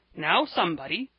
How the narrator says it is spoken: exclaimed old Mr

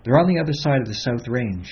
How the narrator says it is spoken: he said quickly

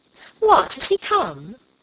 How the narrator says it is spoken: cried Alicia

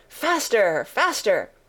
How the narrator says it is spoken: the queen cried

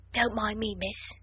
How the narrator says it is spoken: whispered Becky

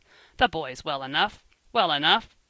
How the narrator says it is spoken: King sharply

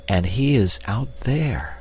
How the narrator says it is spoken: she said in an awe-hushed whisper

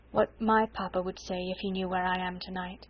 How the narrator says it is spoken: she said in a low voice

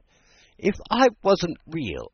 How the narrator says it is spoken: Alice said, half laughing through her tears

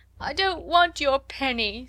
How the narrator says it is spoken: sobbed Lottie

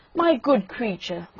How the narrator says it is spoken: cried the rocket, in a very haughty tone of voice

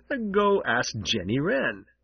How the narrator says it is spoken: chuckled Winsome Bluebird

